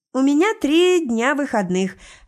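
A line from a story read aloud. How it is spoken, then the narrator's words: Joyful. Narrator (Russian): радостно произносит Лесли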